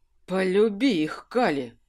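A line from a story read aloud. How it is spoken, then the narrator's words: Breathed out. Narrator (Russian): выдохнул Кирсан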